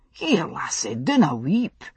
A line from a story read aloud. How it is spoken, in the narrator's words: he exclaimed in alarm